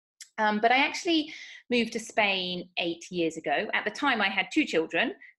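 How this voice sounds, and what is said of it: British accent. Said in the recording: “as you may tell from my accent, I'm from the United Kingdom”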